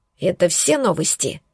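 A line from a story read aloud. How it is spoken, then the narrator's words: Angry, through clenched teeth. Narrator (Russian): Зло процедила я сквозь зубы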